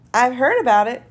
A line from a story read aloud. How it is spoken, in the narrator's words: said another